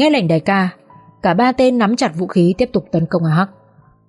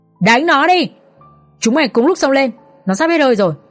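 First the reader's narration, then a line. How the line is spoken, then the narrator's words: Loud shout. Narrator (Vietnamese): Tên mặt sẹo hét lớn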